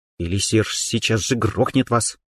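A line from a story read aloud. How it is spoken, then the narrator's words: Through clenched teeth. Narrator (Russian): процедила Дана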